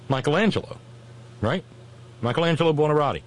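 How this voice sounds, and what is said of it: Put-on southern Italian accent. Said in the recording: “My southern Italian accent's something, isn't it?”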